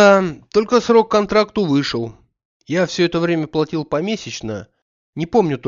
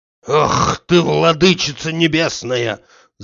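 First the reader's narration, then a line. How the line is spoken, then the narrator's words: Hoarse wheeze. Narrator (Russian): захрипел у себя Захар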